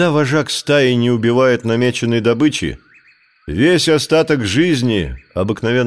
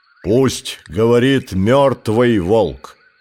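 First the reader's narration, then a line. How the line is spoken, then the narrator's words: Growling, older wolves. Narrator (Russian): Наконец прорычали старшие волки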